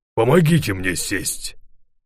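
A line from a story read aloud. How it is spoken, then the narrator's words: Hoarse, frightened voice. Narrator (Russian): продолжал он все тем же хриплым, испуганным голосом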